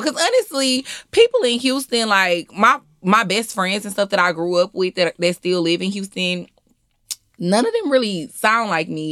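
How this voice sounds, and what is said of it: Strong Southern US accent. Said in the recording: “your accent is strong ... sound southern ... Like it's mm-hmm. southern”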